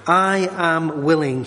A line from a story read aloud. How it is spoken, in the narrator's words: he said